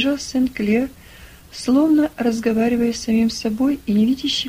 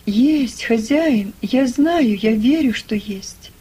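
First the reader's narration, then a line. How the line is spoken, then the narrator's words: Exclaiming. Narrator (Russian): воскликнул Том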